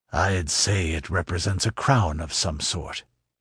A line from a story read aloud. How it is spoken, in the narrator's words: he grunted